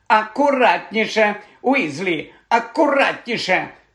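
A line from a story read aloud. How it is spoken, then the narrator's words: Shout. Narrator (Ukrainian): крикнула професорка Спраут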